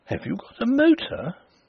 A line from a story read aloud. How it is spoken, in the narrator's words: The astonishment in her tone as she exclaimed